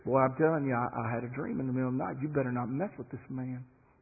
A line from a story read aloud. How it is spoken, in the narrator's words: his wife whispers in his ear